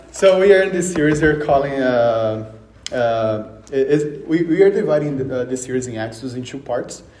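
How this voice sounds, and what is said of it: Brazilian-accented English. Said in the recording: “I'm from Brazil, so you might notice the accent”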